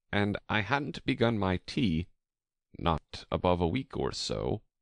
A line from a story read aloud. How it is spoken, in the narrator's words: the Hatter began, in a trembling voice